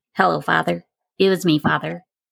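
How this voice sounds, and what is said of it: Imitates a cartoon mouse's voice. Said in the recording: “does a good impression of it”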